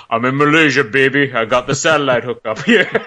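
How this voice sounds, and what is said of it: Put-on sexy voice. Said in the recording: “And a sexy voice.”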